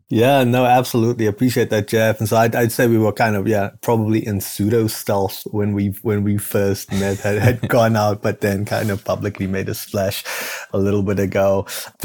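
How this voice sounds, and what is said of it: South African accent. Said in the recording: “this is not a native Midwestern accent. I'm actually originally from Cape Town, South Africa.”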